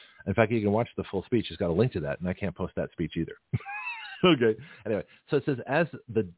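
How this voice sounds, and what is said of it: Usual voice. Nothing is said of it.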